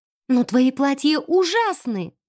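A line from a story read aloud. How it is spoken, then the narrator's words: Unrestrained exclamation. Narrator (Russian): воскликнула она, не сдержавшись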